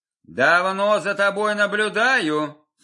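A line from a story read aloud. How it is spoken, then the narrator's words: Plain. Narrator (Russian): сказал он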